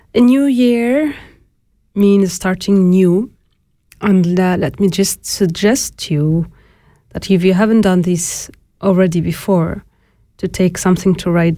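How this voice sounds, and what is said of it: Voice sounds sick. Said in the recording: “Excuse my voice. ... this cold”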